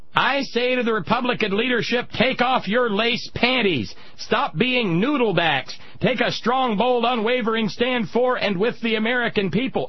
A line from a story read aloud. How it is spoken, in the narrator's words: Kathy Durr, D-I-R-R, of Tea Party Patriots, was screaming